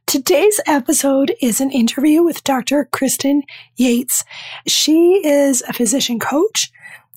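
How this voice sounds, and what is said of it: Strained, nearly lost voice. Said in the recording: “I sound a little different. Like, working so hard to get this level of voice out. I've lost my voice and it's been gone for 4 days. ... I apologize for the voice.”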